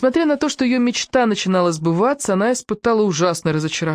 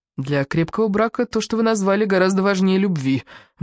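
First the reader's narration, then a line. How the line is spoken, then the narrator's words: Grumbled. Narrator (Russian): буркнула Диана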